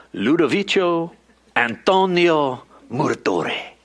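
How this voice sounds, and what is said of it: Put-on Italian accent. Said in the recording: “Was my Italian accent pretty good?... I thought it sounded pretty good”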